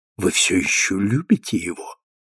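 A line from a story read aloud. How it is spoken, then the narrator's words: Barely audible question. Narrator (Russian): чуть слышно спросил Джессинт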